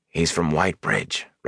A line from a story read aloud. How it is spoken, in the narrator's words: Rand said softly